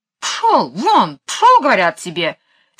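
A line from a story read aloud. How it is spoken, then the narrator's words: Angry. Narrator (Russian): сердито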